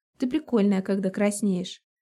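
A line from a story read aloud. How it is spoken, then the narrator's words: Chuckle. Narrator (Russian): Хохотнул он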